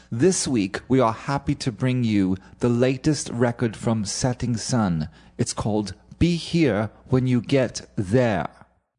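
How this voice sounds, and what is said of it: Fake British accent. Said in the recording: “speaking with fake British accents.”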